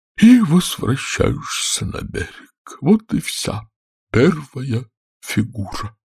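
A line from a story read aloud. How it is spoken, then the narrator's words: Suddenly dropping voice. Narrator (Russian): сказал Квази внезапно упавшим голосом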